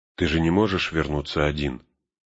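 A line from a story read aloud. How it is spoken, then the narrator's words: Calm reminder. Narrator (Russian): спокойно напомнила Сэму Галадриэль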